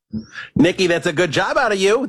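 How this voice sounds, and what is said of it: Mad Dog radio host impression. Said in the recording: “My dog impersonation's not great. is pretty good. pop on here, do an impression of Mad Dog saying good job out of you, Nikki”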